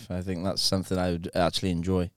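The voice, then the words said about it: Put-on posh RP accent. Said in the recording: “Can you do RP? ... It's like a posh accent ... That's not bad.”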